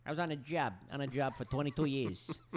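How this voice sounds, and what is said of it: Clipped stereotypical cop accent. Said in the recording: “the firefighter cop accent ... they all have that very clipped, perfect cop accent ... they all talk the same no matter where they're from”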